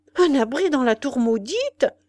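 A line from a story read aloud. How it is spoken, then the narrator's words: Old man exclaiming. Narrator (French): s'écria le vieillard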